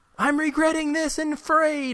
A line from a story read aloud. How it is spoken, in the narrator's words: he screams